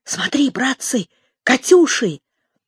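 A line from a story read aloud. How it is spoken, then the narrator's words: Delighted whisper. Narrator (Russian): кто-то восторженно прошептал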